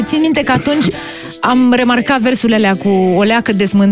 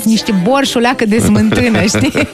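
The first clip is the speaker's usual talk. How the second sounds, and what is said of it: Put-on Moldovan accent. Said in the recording (Romanian): “cum zice ea, cu accent moldovenesc”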